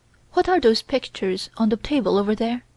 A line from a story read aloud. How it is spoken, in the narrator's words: she exclaimed